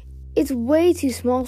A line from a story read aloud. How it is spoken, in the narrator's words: Starflight exclaimed